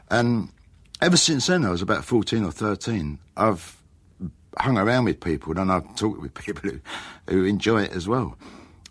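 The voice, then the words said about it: Essex Cockney English accent. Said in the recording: “The Cockney kind of rhyming slang, or that kind of Cockney accent ... I grew up in Upminster, and I grew up with a local accent”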